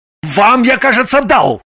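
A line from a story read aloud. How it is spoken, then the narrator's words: Gruff bark. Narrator (Russian): рыкнул Орлов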